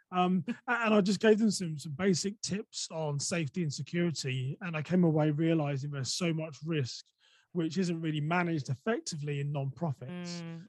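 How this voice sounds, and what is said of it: English accent. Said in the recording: “my English accent ... I think they were struggling with the accent”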